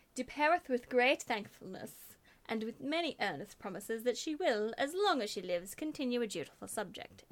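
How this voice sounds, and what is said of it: Put-on generic old-fashioned posh accent. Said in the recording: “Beautiful accent. ... It wasn't English. ... It was generic posh. ... Generic old-fashioned posh.”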